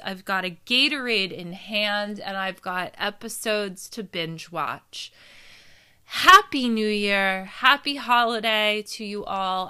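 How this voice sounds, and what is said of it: Tired, hoarse, fading voice. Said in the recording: “I am out of energy and losing my voice.”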